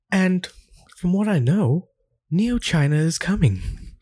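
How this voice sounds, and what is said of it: Poor put-on British accent. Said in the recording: “breaking out the Sargon impersonation ... It's just a shitty British accent.”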